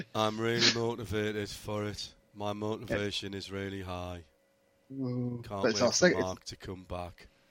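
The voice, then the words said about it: Convincing Scottish accent impression. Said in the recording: “There's a Scottish accent. You got Paul DeResta down to a T.”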